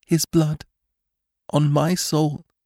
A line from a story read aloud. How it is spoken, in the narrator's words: whispered Jane